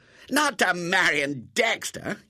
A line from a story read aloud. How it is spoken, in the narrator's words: yelled Robert